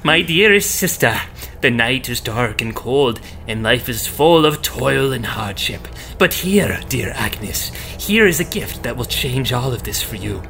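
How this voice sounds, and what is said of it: Old witch character voice. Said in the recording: “I gotta do like an old witch voice”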